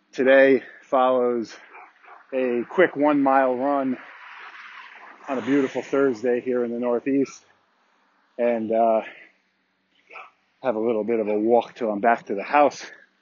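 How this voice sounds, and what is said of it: Slightly out of breath. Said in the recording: “I'm slightly out of breath”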